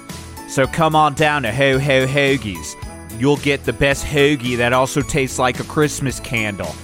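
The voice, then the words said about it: Shaky put-on Philadelphia accent. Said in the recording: “I don't have a good handle on the Philly accent ... the phrase I try to use to get myself into the Philly accent, and I'm starting to lose it”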